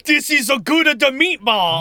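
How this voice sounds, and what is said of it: Bad put-on Italian accent. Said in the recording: “He does the worst Italian accent.”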